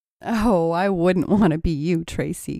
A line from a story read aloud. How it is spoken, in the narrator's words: giggled Stacy